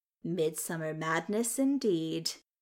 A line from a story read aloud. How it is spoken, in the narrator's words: with a certain sort of smile